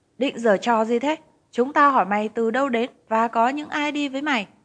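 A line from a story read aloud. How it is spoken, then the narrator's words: Angry. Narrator (Vietnamese): Công an giận dữ nói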